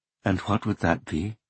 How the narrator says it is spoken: Miss Saeki asked quietly

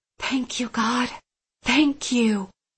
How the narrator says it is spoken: I whispered

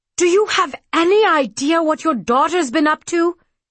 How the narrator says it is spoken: He shouted

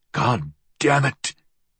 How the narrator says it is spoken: he muttered

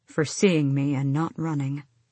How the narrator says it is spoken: he murmured

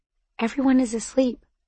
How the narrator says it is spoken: I said quietly

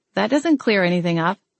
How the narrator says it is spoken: I said

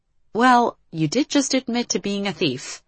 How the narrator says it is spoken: Liv said, trying to keep her voice light

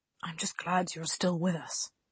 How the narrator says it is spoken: whispered

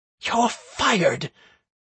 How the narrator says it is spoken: the manager, who had now come to herself, hissed

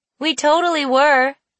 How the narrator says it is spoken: Amanda yelled after him

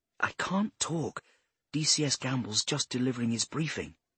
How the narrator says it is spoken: she whispered

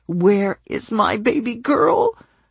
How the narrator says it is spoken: The words choked off

